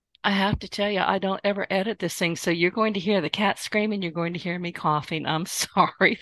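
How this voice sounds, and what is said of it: Hoarse, failing voice. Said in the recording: “I'm losing my voice and I can't talk.”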